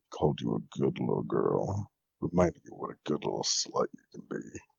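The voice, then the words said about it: Low growling voice. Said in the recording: “those growls”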